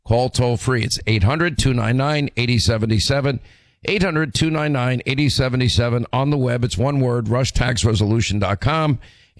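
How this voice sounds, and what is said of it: Hoarse voice from laryngitis. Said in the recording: “my laryngitis”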